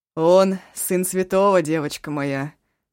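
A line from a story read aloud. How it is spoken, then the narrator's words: Laughing grandmother. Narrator (Russian): смеялась бабушка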